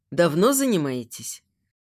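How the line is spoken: Hoarse question. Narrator (Russian): спрашивает Илья севшим голосом

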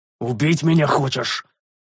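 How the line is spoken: Growl. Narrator (Russian): рыкнул я

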